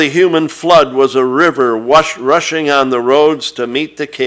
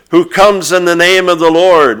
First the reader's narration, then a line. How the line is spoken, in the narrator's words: bellowed back